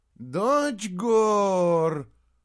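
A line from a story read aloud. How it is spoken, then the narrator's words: Troll's groan. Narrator (Russian): простонал тролль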